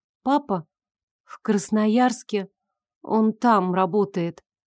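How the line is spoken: Girl, slightly sad. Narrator (Russian): немного грустно ответила девочка

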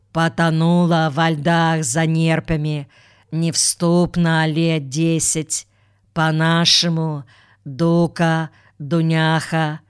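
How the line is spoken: Impassive, flat voice. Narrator (Russian): продолжал Макарьев бесстрастным голосом

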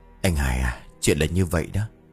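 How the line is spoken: Sighing. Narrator (Vietnamese): Ông Hải kể đến đây thì thở dài, rồi bảo

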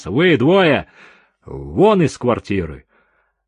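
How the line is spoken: Stern commanding order. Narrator (Russian): седой полицейский грозным командирским тоном отдал приказ

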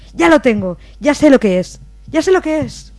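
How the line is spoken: Excited exclamation from woman. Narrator (Spanish): una compañera, que había caído en un ataque similar, exclamó

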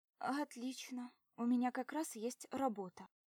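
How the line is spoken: Trembling voice. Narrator (Russian): дрогнувшим голосом отвечаю я

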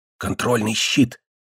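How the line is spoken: Whisper in the ear. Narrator (Russian): Баркер шептал мне на ухо

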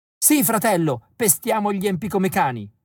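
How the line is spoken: Excited yell. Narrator (Italian): urlo esaltato

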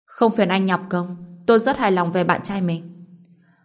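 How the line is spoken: Cold, annoyed speech. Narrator (Vietnamese): Lãnh Như Yên thấy Hướng Hiệu này phiền muốn chết, lạnh lùng nói

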